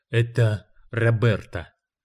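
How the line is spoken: Soothing whisper. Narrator (Russian): шепнул Гарп, успокаивая жену

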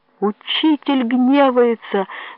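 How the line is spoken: Worshippers whining. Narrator (Russian): скулили верующие

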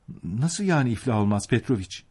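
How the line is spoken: Childlike pleading voice. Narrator (Turkish): dedi bir çocuk gibi yalvaran bir sesle

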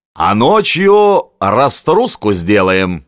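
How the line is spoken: Plain. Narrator (Russian): сказал Камчатка

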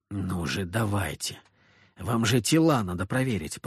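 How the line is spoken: Impatient muttering. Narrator (Russian): пробормотал я, с нетерпением

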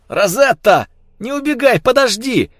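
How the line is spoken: Shouted. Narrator (Russian): закричал Алан

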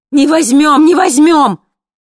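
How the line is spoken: Sudden terrible scream over speaker. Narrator (Russian): Вдруг страшно закричали в динамике

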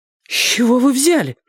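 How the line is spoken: Indignant exhale. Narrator (Russian): возмущенно выдохнула она

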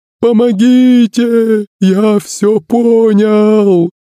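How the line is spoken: Sobbing man. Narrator (Russian): продолжал рыдать бородатый

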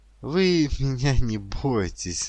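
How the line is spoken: Laughing. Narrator (Russian): засмеялась Ата

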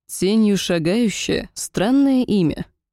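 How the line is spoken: Confident, calm. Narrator (Russian): произнес эльф, уверенный в своей безопасности

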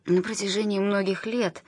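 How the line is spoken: Plain. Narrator (Russian): сказала Кэрол

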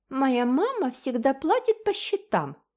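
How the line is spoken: Singsong. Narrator (Russian): нараспев повторила Джеральдина

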